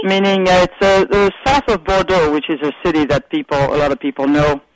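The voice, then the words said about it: French accent. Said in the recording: “You have the best accent. ... Where in France are you from?”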